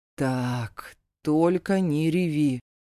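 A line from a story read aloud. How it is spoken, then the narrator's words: Pleading with long sigh. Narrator (Russian): Протяжно вздохнув, попросил он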